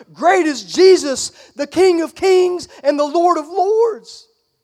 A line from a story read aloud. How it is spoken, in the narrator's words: shouting